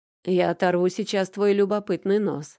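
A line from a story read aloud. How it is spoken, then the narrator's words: Grunting scoff. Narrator (Russian): хмыкнул Макар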